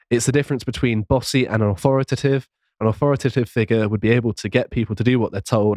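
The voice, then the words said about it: Strained, fading voice. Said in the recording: “I'm losing my voice slowly. ... I'm losing it.”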